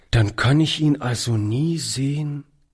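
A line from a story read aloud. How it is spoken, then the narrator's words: Quiet. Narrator (German): sagte er leise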